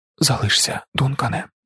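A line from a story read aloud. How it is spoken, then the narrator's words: Whispered. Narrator (Ukrainian): прошепотіла Алія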